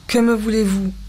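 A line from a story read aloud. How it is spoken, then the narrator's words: Curt, unfamiliar chest voice. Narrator (French): demanda sèchement d'une voix de poitrine qu'elle ne se connaissait pas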